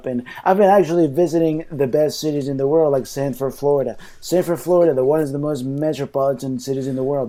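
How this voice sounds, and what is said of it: Imitates another person's voice. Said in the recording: “this is my best impression. ... in Donald Trump voice”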